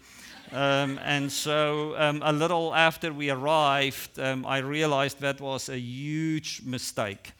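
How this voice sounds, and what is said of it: Non-native English accent. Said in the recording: “because of my accent, I've learned, when I tell people I'm from Ohio, they hear all kinds of different things”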